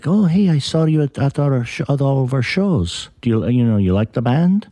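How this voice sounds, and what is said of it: Bad imitation Italian accent. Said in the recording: “terrible Italian accent”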